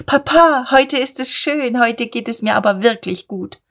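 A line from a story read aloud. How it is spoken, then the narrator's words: Calling back. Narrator (German): Sie rief rückwärts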